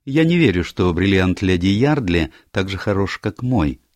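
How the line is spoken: Plain. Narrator (Russian): сказала мисс Марвел

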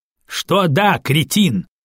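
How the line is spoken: Loud laughter. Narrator (Russian): громко рассмеялся Обидолов

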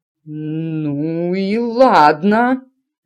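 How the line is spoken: Stammering. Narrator (Russian): заикаясь, выговорила она

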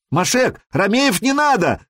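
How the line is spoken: Shouted in Khazar. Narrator (Russian): крикнул Сергей по-хузарски

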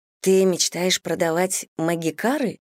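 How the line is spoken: Hushed amazement. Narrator (Russian): вполголоса изумилась

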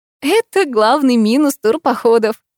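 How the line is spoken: Laughing. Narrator (Russian): рассмеялась я

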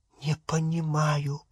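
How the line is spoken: Whispered. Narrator (Russian): прошептала она

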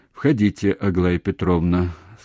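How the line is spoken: Calm, even voice. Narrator (Russian): сказал спокойным и ровным голосом

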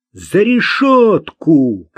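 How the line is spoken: Shouted. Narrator (Russian): крикнул Марк

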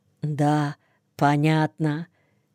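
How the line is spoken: Barely audible confirmation. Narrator (Russian): еле слышно подтверждают взводные

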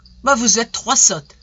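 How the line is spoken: Shouting. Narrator (French): cria M

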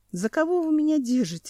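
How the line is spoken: Laughing. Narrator (Russian): рассмеялся Семен

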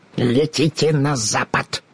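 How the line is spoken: Growling. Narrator (Russian): прорычала волшебница

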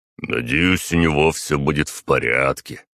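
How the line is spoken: Deep bass voice. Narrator (Russian): пробасил Артем

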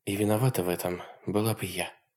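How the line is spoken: Quiet reply. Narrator (Russian): тихо отозвалась Хонор

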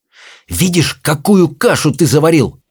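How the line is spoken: Hissing. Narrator (Russian): прошипела Софи Хоулу

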